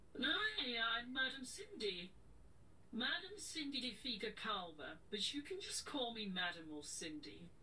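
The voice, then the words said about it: Put-on character accent. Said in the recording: “she's very good at different accents”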